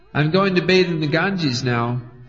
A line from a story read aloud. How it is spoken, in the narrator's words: he shouted to Mother Sachi